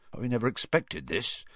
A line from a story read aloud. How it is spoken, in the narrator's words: he said in a low, worried voice